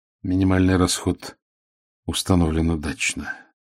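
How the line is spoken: Quiet. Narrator (Russian): тихо сказал Торлик

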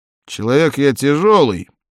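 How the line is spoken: Plain. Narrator (Russian): сказал Гарет

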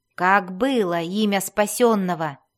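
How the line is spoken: Angry question. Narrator (Russian): сердито спросил Свирфнеблин

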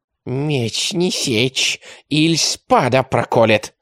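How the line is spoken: Hissing. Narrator (Russian): прошипел Микелотто

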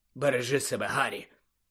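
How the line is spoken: Hoarse. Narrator (Ukrainian): Сіріус хрипло сказав

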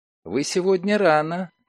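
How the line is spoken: Cooing. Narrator (Russian): проворковала Лиля

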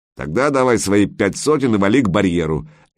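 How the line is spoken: Gruff barking man. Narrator (Russian): рявкнул мрачный тип

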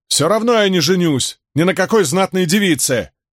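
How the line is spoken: Shout into an object. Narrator (Russian): крикнул Мэтт в Терангриал

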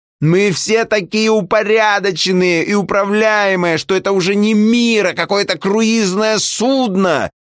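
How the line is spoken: Shouting woman. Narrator (Russian): Эта самая женщина кричала

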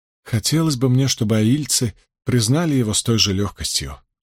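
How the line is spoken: Sighed. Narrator (Russian): вздохнула Эгвейн

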